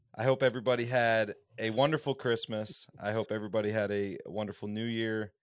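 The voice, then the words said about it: Strained hoarse voice cutting out. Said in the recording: “apologize for my voice. It's kind of cutting in and out on me... my vocal cords are hurting right now.”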